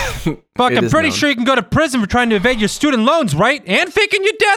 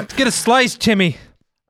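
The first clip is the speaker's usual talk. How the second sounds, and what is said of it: Put-on Italian-American accent. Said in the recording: “you sound Italian-American.”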